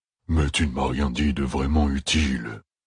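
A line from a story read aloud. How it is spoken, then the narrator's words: Deep rumbling growl. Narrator (French): grogna l'Augier, l'équivalent d'un roulement de tambour, sortant de son énorme torse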